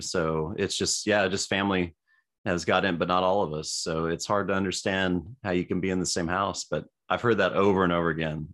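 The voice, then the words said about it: Deeper, stuffy congested voice. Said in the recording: “my voice is a little deeper today ... I've been kind of stuffy, you know, for about a week”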